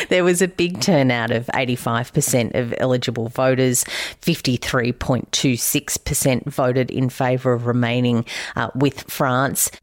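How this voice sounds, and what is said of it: Australian accent. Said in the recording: “my accent isn't really great at much other than Australian”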